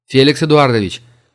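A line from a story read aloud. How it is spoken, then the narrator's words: Shouting. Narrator (Russian): крикнул Денис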